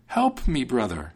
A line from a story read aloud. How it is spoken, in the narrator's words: cried the soldier